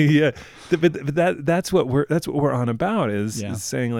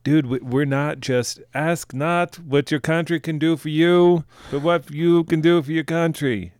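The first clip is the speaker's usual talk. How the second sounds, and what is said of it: Convincing New England accent. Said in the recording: “it's a great New England accent you have there. it's like, you totally nailed it.”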